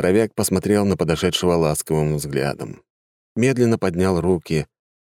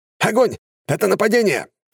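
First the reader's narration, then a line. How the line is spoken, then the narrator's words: Soldiers shouting. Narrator (Russian): закричали солдаты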